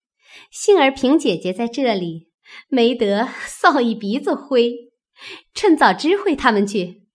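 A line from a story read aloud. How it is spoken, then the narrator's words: Laughing. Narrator (Chinese): 秋文笑道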